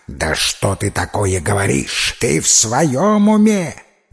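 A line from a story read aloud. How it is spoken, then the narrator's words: Hissing, shouting. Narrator (Russian): Змеи шипели, кричали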